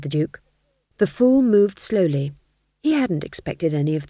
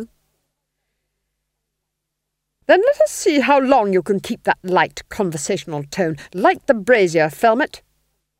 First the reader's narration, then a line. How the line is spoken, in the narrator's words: snapped the Duchess